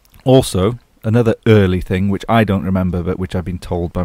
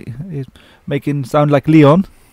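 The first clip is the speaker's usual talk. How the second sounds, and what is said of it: Poor impression of old Frenchwoman. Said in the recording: “Is that a good French impression of a French old lady? No, I don't think it is.”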